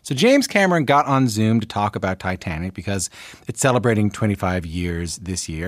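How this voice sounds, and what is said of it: Newfoundland Canadian accent. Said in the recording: “he recognizes my accent. He recognizes that I'm from Newfoundland, that I'm Canadian”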